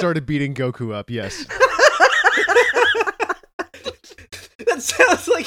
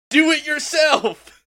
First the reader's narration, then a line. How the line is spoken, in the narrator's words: he just yelled out